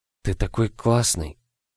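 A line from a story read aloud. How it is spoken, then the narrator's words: Whispered. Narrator (Russian): шептала она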